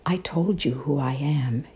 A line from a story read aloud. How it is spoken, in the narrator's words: he repeated quietly with a sigh